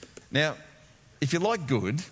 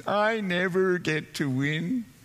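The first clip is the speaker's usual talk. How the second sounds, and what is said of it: Whiny, whingy Canadian accent. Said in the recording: “this whingy, whiny Canadian accent”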